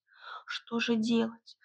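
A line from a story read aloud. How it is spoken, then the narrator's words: Panicked whisper. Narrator (Russian): прошептала Василиса в панике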